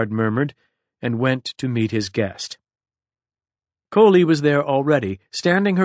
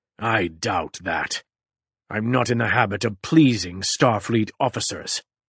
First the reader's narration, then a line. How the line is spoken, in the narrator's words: Suvim growled